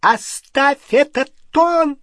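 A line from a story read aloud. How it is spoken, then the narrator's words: Shrill woman's voice. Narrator (Russian): Визгливо начала тетя Петунья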